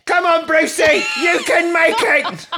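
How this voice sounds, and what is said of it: Shouted British schoolboy accent. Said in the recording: “You got to shout it in a British accent. It's a little British schoolboy.”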